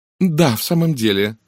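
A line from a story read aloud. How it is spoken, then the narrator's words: Sighing. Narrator (Russian): вздохнула мисс Монро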